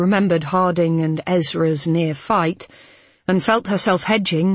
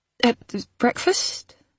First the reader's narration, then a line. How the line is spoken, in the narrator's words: Hal faltered